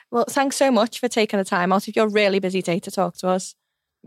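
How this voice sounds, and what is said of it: Liverpool accent. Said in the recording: “Thank you for your brilliant accent ... I love the city and I love how people from the city sound”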